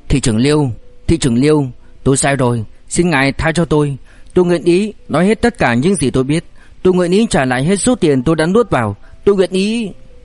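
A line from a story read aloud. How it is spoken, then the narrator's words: Trembling, terrified pleading. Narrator (Vietnamese): Sắc mặt Triệu Chí Đề lập tức trắng bệch, giọng run rẩy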